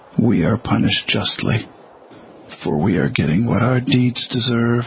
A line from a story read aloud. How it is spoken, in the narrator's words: I said